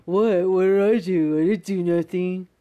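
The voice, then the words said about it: Mocking impression of co-host. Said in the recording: “I don't even sound like that... Work on your impression.”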